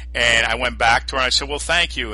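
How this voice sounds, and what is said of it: New York accent. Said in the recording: “I love that New York accent of yours”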